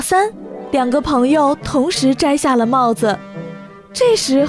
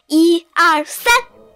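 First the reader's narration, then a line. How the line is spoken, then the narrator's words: Loud counting. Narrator (Chinese): 匹诺曹开始大声数着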